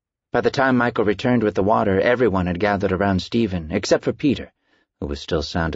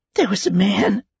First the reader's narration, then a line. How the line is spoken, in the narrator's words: Stephen gasped, breathless